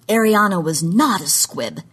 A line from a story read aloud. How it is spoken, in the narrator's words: wheezed Doge